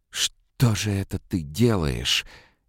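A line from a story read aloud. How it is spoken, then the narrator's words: Hoarse breaking scream. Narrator (Russian): Ее голос сорвался в хриплый вопль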